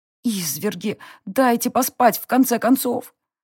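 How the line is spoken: Groan. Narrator (Russian): простонала я

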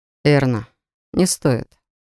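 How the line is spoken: Completely calm. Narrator (Russian): Ричард совершенно спокойно произнес

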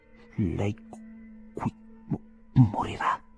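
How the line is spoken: Trembling, dying voice. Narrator (Italian): rispose Cornelius, sempre in preda a violenti tremiti e con una voce da moribondo

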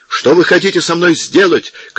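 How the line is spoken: Shout. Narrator (Russian): крикнул Атсо

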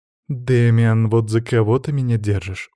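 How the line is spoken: Weary sigh. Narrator (Russian): устало вздохнула Тея

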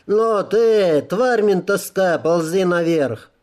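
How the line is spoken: Nasty laughter. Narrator (Russian): Стоявший наверху мерзко как-то захохотал

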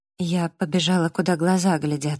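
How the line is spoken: Quiet. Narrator (Russian): сказала я тихо

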